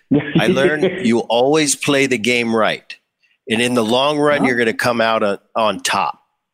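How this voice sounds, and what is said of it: Imitates another person's accent. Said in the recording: “I'm doing his accent a little bit”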